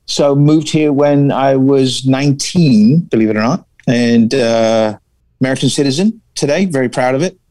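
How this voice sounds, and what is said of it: Smooth English accent. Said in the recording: “where's this beautiful accent coming from? ... it's like butter in the headphones in here right now ... But I English, right?”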